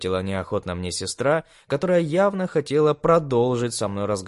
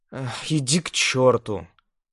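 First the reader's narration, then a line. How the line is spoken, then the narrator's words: Young woman sighing. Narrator (Russian): вздохнула девушка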